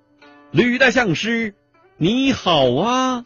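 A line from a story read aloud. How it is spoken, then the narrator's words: Sudden call. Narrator (Chinese): 一个太监 突然叫了一声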